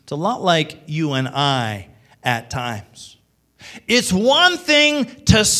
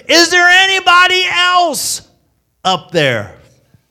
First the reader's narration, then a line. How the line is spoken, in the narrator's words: The man yelled out to no one in particular